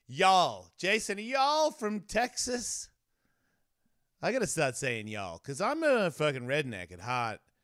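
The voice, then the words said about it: Australian accent. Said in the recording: “I got an Australian accent”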